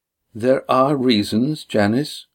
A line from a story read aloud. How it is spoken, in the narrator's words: said evenly